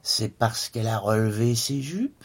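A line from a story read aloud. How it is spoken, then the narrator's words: Mocking, fluty voice. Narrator (French): persifla le père d'une voix de flûte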